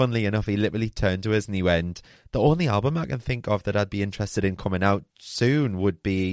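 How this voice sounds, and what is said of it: Usual voice. Nothing is said of it.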